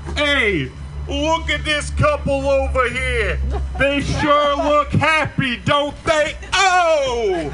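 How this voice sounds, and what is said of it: 80s New Jersey insult comedian voice. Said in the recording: “my 80s New Jersey comedian that is trying to be an insult comedian but just can't make it”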